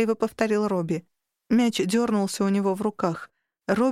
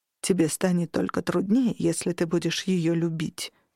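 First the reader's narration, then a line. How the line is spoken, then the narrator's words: Plain. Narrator (Russian): сказал Грилл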